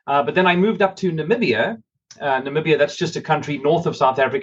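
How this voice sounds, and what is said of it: Faded South African accent. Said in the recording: “what's left of the accent after being in America, especially in Texas ... the accent that's left originates from Cape Town, South Africa”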